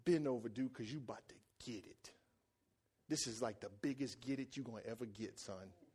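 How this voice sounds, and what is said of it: Deep stern voice. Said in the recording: “using my deep voice”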